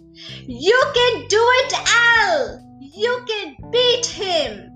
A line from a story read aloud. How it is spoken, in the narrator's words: a voice from the crowd shouted